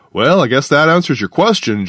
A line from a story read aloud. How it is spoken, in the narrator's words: Jar said